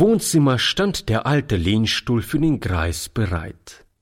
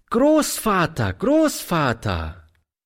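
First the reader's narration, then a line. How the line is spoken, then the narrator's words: Cheerful calling. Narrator (German): rief fröhlich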